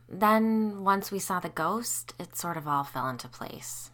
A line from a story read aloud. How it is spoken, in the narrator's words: Isabel said sadly